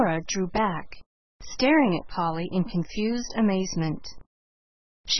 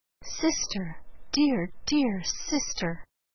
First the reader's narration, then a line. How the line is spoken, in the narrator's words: With her lips close Elnora's ear, Polly whispered